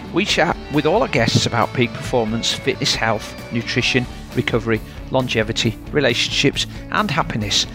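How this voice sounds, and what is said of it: Yorkshire accent. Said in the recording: “you'll always hear a Yorkshire accent”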